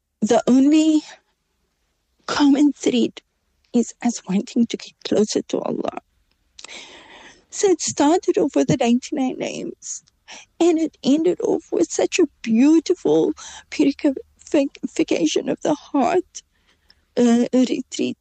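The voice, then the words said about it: Emotional, choked-up speech. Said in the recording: “Sorry, I'm getting emotional”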